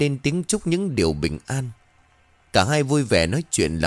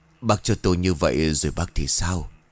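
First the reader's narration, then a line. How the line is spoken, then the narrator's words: Soft. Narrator (Vietnamese): Bà cô khẽ cất lời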